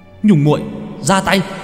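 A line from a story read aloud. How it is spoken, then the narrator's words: Sudden hiss. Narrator (Vietnamese): Thiên Sơn bỗng nhiên rít lên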